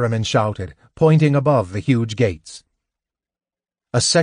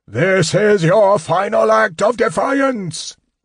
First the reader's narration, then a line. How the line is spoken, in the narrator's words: Verminard roared